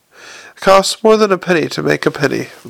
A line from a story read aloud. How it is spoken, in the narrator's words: Moist murmured